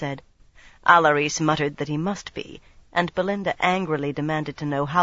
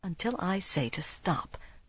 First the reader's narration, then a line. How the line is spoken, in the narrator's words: Savannah said softly